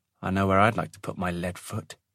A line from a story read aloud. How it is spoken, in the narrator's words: he muttered